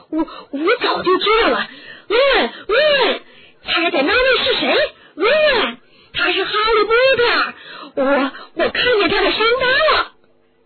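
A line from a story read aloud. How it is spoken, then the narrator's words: Happy exclamation. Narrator (Chinese): 斯坦高兴地叫了起来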